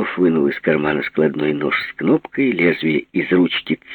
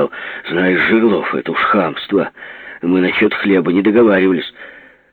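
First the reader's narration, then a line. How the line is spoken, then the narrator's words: Angry. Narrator (Russian): Соловьев сердито сказал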